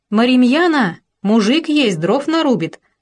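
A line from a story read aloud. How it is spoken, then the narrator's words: Girls shouting together. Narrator (Russian): закричали девки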